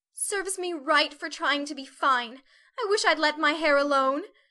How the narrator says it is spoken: cried Meg petulantly

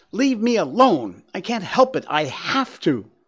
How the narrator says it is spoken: She continued to scream and went on to say

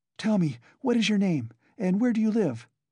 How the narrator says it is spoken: she said hurriedly in a breathless voice

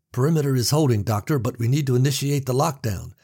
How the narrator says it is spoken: the captain was shouting

